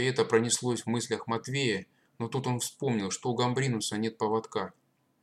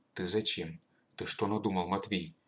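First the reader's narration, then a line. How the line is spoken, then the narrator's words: Quiet old man asking. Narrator (Russian): тихо спросил прадед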